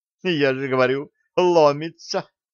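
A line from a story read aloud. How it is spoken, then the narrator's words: Giggling. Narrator (Russian): хихикнула Нола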